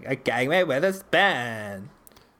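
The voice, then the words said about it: Stereotypical Valley Girl voice. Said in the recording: “my stereotypical Valley Girl voice. ... What do Valley Girls sound like?”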